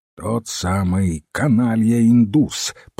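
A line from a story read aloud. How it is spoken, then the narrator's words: Grumbling. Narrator (Russian): проворчал Хэрис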